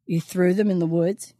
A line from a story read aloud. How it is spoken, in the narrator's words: he chuckled